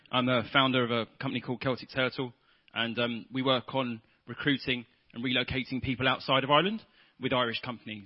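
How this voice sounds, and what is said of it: Non-Irish accent. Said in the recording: “you'll probably guess by my accent, I'm a blow-in myself”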